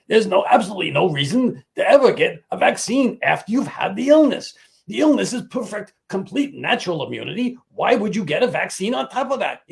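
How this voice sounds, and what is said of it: Imitates another person's voice. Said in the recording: “I'm going to do my Fauci voice.”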